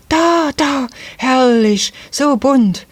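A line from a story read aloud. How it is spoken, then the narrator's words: Child's sudden cry. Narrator (German): rief auf einmal eines der Kinder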